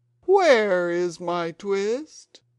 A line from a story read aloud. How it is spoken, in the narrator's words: spit and growled at the tailor